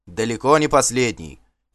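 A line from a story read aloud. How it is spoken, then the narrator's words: Shout. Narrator (Russian): крикнул кто-то из асвальдовой дружины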